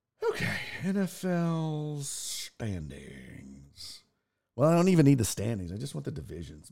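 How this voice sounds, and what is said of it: Fading, worn-out voice. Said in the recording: “my voice is fading ... Just a lot of drinking. Oh, two cigars yesterday.”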